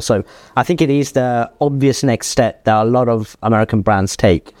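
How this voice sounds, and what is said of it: British accent. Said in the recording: “our British accent”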